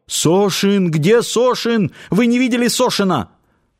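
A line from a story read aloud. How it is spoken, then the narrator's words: Panicked shouting. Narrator (Russian): бледный, с вытаращенными глазами охранник и закричал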